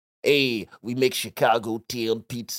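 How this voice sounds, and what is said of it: Put-on Chicago mobster accent. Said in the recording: “What the fuck was that accent? ... They used to try and talk like mob guys, but they're from Chicago”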